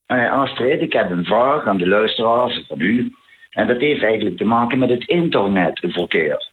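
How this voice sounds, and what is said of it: Limburg Dutch regional accent. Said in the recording (Dutch): “Zuid-Limburg ... met mijn Limburgse accent”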